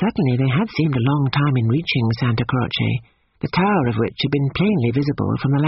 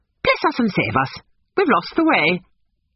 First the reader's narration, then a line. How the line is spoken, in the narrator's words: she broke off and exclaimed